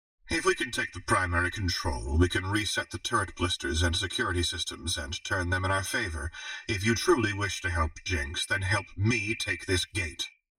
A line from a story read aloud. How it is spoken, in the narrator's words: Renata said